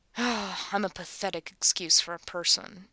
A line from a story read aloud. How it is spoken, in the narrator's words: he mumbles to himself